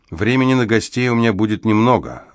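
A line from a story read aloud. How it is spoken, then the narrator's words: Snorting. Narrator (Russian): она фыркнула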